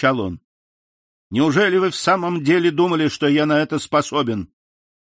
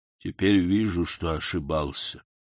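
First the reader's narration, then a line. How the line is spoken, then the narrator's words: Plain, sick man. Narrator (Russian): сказал больной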